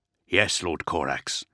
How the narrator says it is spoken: the recruit replied, his voice now deep, edged with a husky timbre

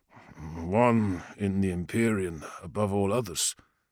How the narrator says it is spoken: the former slave muttered

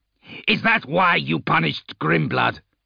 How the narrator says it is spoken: Ake snarled

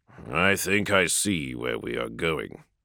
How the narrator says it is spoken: Dorn said gravely

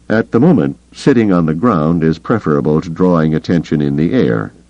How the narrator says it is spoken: he said coldly

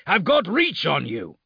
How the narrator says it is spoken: Lucas snarled

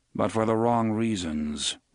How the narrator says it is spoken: Roland said in a dry tone

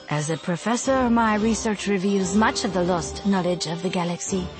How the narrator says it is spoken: she said smoothly, completely unruffled by his sudden inquiry

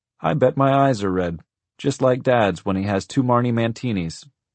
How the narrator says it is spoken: he told the hollowed-out restaurant in a lecturely tone

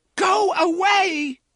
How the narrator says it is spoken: she screamed in a tear-clotted voice she barely recognized

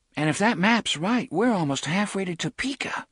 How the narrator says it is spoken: Susanna said in a tight voice

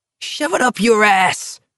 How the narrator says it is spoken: Barkovich screamed after them

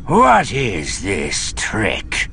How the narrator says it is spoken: He growled

